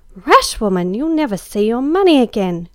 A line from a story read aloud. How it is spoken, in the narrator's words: cried Em